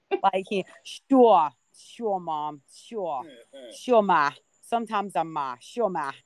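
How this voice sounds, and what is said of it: Put-on New York Bronx accent. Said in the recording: “He's got this little New York accent ... he's from the Bronx, acts like he is”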